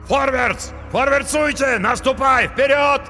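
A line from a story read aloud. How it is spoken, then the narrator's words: Many voices yelling. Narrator (Russian): завопили наемники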